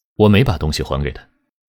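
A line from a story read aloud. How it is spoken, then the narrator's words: Flat, indifferent. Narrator (Chinese): 他淡淡地说了一句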